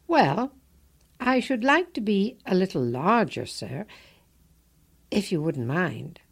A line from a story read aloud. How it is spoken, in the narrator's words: said Alice